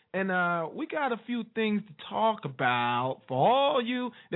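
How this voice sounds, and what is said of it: Imitates another person's voice. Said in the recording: “That's my Bill Cosby impression for you know, the younger version”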